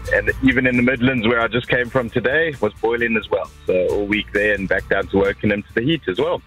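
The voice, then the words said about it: South African accent. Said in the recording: “Is that you from South Africa? ... South African accent, that's for sure.”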